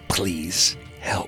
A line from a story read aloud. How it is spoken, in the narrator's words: She manages to croak out